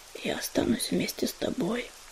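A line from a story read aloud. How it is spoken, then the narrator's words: Whisper. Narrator (Russian): прошептал терновник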